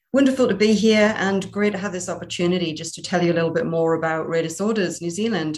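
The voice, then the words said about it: Geordie accent with hint of Irish. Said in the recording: “a Kiwi, Irish, Geordie, Singaporean with Gibraltar thrown in ... the accent is a Geordie accent with a hint of Irish”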